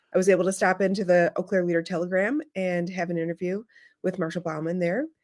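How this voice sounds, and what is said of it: Slightly hoarse voice. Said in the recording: “you can hear I'm a little hoarse because all I do is talk on the phone”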